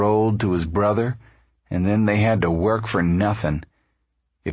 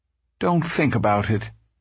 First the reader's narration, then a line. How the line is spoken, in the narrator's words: Ma begged him